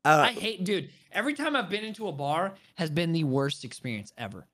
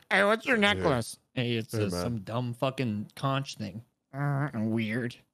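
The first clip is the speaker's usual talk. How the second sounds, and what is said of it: Mocking nasal voice. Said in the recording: “you probably talk like this ... My voice is nasally”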